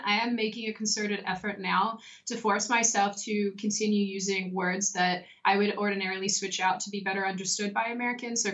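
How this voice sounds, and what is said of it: Australian accent. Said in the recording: “Apparently it becomes stronger when I'm talking to other Australians ... I don't want to lose my accent ... I don't want my accent to go anywhere.”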